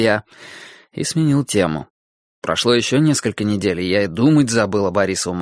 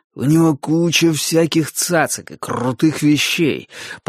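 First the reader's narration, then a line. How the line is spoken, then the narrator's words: Growled, finger in mouth. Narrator (Russian): прорычал Борис, не выпуская пальца изо рта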